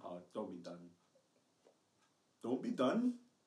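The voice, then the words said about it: Poor attempt at Scottish accent. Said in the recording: “Are you trying to do Scotland? That was poor.”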